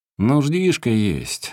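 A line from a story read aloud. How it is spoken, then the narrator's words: Muffled distant shout. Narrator (Russian): глухо крикнул он оттуда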